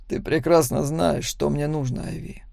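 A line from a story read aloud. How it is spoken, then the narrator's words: Quiet. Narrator (Russian): тихо произнес Макс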